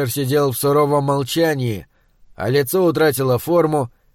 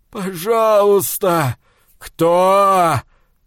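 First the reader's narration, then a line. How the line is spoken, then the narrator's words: Sobbing. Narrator (Russian): Послышалось что-то вроде всхлипа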